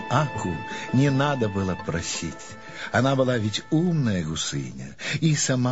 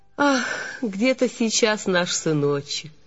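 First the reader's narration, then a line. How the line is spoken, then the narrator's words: Mother's heavy sigh. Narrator (Russian): Мать тяжело вздохнула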